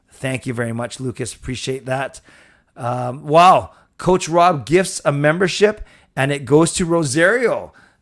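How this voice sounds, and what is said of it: Recovering voice, slightly cracking. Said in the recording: “your voice does sound better. It's a little bit better, but it's still not perfect... my voice is cracking”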